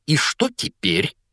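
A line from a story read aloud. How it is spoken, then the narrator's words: Spiteful question. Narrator (Russian): злобно спросила тетя Петунья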